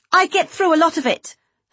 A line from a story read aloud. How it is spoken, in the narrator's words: her mother snapped